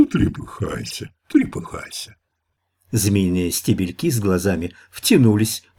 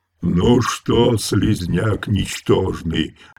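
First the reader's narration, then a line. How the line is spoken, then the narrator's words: Thunderous unnatural roar. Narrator (Russian): взревел он громоподобным голосом, не своим, каким-то даже искусственно усиленным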